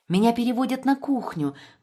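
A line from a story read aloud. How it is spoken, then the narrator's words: Excited, joyful whisper. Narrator (Russian): возбужденно и радостно зашептала Мэдди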